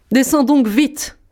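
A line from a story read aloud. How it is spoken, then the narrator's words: Shouted. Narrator (French): criait la Barbe Bleue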